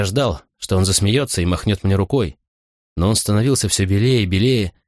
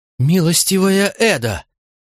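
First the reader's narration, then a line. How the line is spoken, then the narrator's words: Exclaimed. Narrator (Russian): воскликнул он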